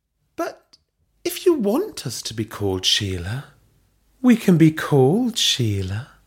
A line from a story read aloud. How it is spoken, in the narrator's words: Belinda purred